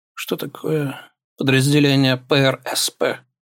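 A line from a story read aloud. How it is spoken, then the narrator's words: Strained, forced out. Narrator (Russian): выдавил он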